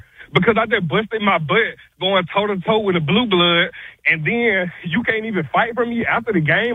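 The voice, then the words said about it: Out of breath. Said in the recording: “out of breath”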